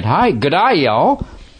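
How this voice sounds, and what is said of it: Mixed English and Southern drawl accent. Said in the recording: “if you combine an English accent and a good old boy, you get this”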